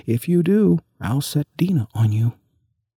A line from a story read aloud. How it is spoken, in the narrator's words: Alice called out as loud as she could